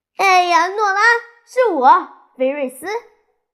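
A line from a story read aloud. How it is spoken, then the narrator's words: Woman calling out. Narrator (Chinese): 菲瑞斯女士喊着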